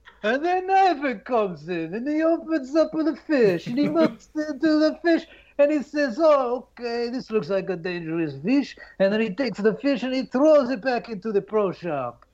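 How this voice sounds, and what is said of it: Performs a character voice. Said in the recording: “Let me do your Ivan character.”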